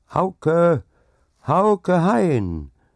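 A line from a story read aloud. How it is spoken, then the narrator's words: Loud cheerful call. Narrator (German): rief es laut und fröhlich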